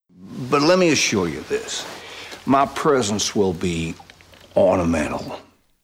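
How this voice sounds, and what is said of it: Non-rhotic Southern gentleman accent. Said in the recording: “Daniel Craig's accent in Knives Out is non-rhotic, so no r sounds after vowels ... in doing a Southern American accent ... going for this like Southern gentleman”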